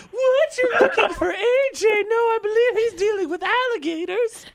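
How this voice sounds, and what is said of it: Unconvincing put-on fake voice. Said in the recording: “My fake voice, too?... that voice, you're like, something doesn't add up here”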